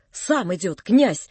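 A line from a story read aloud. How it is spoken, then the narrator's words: Quick whisper. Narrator (Russian): сказала она ускоренным шепотом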